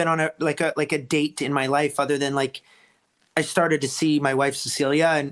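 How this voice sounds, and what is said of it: Usual voice. Nothing is said of it.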